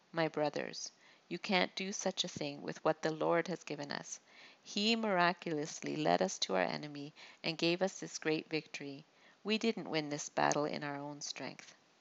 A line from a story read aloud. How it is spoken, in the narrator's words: David answered calmly